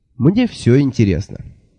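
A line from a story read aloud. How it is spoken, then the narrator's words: Thoughtful. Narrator (Russian): задумчиво сказал я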